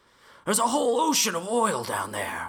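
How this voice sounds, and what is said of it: Gravelly film-character impression. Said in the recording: “You sounded a little bit like somebody doing an Al Pacino accent.”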